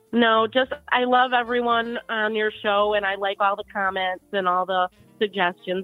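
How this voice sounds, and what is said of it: Midwestern American accent. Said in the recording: “the Canadian accent and the Midwestern accent sound very similar, because I thought you were Canadian for a little bit, and I remembered you're Midwestern.”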